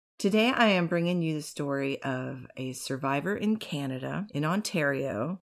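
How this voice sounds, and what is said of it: Slightly husky voice. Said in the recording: “I had a terrible flu or COVID or something 2 weeks ago, and my voice is still a little bit husky.”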